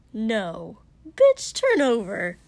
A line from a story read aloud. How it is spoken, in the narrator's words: Kotsky said sharply